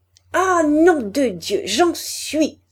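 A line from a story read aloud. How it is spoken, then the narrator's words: Stammering. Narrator (French): balbutiait-elle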